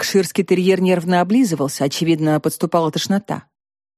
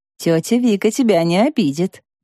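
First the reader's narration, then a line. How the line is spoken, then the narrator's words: Cooing nurse. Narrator (Russian): проворковала татуированная медсестра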